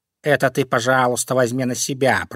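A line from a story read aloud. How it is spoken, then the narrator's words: Grumbling cat. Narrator (Russian): проворчал кот Васька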